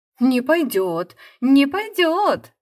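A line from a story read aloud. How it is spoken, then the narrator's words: Two friends shrieking. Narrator (Russian): завизжали обе подруги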